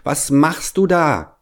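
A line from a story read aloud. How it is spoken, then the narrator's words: Child calling upward. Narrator (German): rief der kleine Hävelmann hinauf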